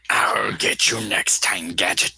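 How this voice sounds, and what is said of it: Dr. Claw impression. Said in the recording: “it kind of sounds like Dr. Claw from Inspector Gadget.”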